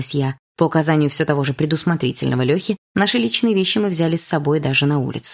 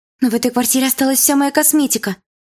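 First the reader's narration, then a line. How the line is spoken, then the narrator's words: Faint babbling. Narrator (Russian): пролепетала Дилара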